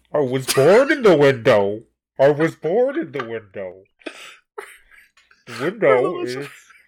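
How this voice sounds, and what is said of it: Muffled Bane-style villain voice. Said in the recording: “your Bane impression... Most people I know cup their hands over their mouths... has covered their whole lower face with the two hands. And... it is amazing. It's a work of art.”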